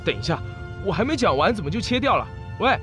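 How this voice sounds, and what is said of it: Shouting. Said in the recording (Chinese): “别喊了”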